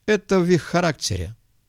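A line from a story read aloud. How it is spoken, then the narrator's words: Wry snort. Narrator (Russian): Глоттер хмыкнул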